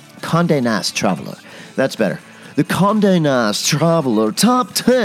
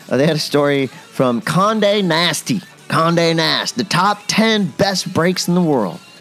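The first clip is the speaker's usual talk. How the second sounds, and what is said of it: Slips into a put-on accent. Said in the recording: “Why did I go into that accent?”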